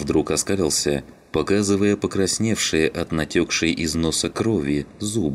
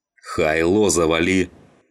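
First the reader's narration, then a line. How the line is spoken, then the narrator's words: Barking. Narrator (Russian): Рявкнул Саныч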